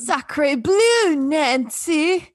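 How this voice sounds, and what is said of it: Exaggerated fake French accent. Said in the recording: “the fakest French accent I've ever heard in my life ... It's so bad ... That's what he sounds like.”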